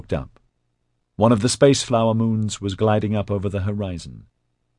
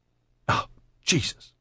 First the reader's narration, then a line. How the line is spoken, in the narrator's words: Liz spat in contempt